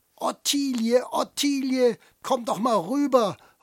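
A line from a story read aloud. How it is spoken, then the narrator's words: Older man calling. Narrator (German): ruft ein älterer Herr von seinem Platz aus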